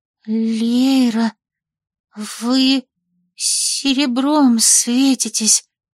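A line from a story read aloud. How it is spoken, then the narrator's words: Frightened gasp, servant. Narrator (Russian): перепуганно выдохнула служанка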